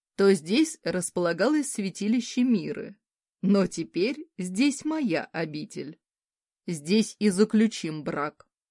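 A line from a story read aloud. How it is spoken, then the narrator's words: Predatory tone. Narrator (Russian): хищным тоном начал рассказывать Де Беттл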